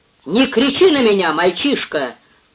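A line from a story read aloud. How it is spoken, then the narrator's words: Old man yelling back. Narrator (Russian): заорал в свою очередь старый Байерт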